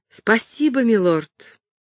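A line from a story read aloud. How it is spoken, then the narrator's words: Sincerely joyful exclamation. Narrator (Russian): воскликнула она, искренне и глубоко обрадованная, как интересом, который он проявил, так и тем, что получила свой собственный герб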